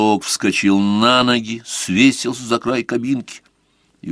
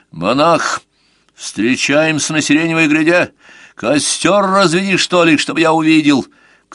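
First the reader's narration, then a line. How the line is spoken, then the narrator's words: Shouted. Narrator (Russian): крикнул Сварог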